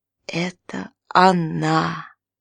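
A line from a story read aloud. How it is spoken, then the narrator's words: Hoarse mutter. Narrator (Russian): хрипло пробормотал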